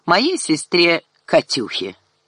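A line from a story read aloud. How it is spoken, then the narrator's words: Mocking emphasis. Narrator (Russian): насмешливо подчеркнул он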